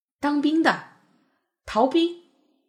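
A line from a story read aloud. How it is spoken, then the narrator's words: Excited loud shouting. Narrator (Chinese): 我受到弟弟兴奋情绪的传染，也大声叫嚷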